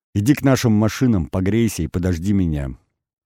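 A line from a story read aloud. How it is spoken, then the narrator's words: Plain. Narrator (Russian): сказал я Олесе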